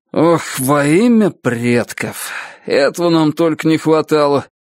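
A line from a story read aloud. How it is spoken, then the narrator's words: Grumbling. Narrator (Russian): пробурчал он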